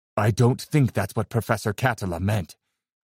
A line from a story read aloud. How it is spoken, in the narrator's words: I whispered